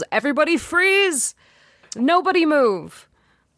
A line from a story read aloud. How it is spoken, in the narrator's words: He yells